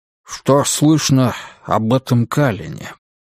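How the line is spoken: Plain. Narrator (Russian): спросил, наконец, Уитни

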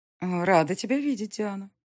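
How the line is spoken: Tender. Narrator (Russian): произнесла Клавдия ласково

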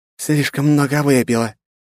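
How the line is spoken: Apologetic muttering through teeth. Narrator (Russian): извительно процедила Иль в ответ

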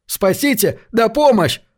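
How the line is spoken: Screamed. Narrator (Russian): завопил он

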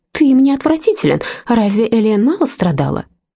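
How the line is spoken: Conciliatory. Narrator (Russian): сказал примирительным тоном

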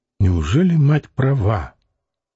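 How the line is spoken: Calm, gruff question. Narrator (Russian): спросила она так спокойно и грубовато

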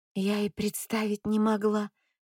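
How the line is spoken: Mumbled. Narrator (Russian): бормочет

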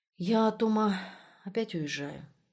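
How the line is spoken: Quiet. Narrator (Russian): тихо сказал он

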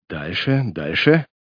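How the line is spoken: Muffled encouraging whisper. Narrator (Russian): глухим шепотом поощрял он

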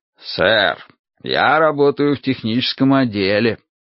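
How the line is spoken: Mocking tone. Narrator (Russian): сказал Финли, тоже насмешливым тоном

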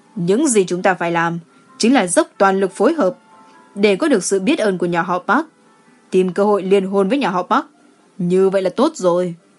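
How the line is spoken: Cold laugh. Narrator (Vietnamese): Gu Chi Yong cười lạnh lùng nói

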